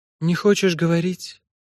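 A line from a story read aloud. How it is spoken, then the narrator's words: Sighing. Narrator (Russian): вздохнула та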